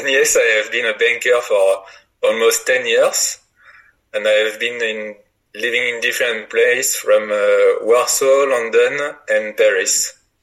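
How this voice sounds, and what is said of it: French accent. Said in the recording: “your French accent is lovely”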